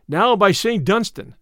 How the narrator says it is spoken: cried Little John

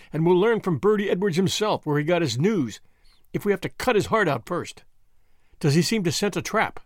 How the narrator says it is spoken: laughed

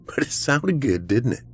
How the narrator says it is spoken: Cameron laughed as well

